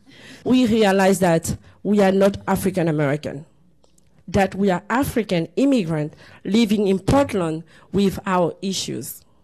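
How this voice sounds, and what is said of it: Ivorian accent. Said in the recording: “You have an accent. Where are you from?" I will say, "I'm from Ivory Coast."”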